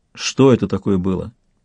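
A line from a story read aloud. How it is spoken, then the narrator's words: Quiet question. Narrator (Russian): тихо спросил Сварог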